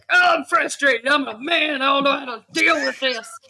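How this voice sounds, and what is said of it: Exaggerated stereotypical man voice. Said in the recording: “where did my accent come from? I feel like that's legit. I feel like that's the universal man voice.”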